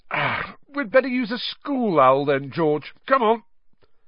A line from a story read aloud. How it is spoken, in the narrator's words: yawning, and said